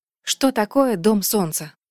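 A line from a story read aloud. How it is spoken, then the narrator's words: Whisper. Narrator (Russian): прошептала Асин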